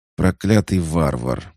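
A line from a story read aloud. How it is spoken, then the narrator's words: Through gritted teeth. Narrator (Russian): процедил Рекка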